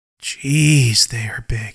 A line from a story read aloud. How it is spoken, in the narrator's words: mumbles under his breath